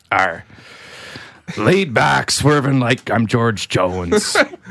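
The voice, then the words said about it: Singing in a pirate voice. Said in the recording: “Talk like a pirate ... sing like a pirate”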